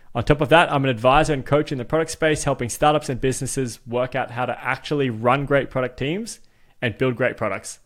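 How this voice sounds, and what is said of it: Australian accent. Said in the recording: “I may sound Australian”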